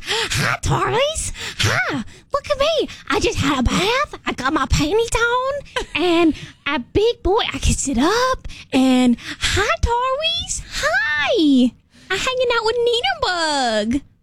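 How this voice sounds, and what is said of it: Impression of a co-host's baby talk. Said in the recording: “do an impersonation of you”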